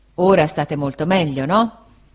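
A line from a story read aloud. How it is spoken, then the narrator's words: Laughing reply. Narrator (Italian): Peggotty rise e rispose di sì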